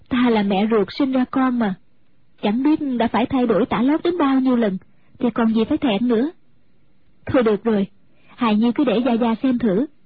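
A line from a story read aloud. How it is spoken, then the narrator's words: Smiling. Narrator (Vietnamese): Mẫn Như mỉm cười nói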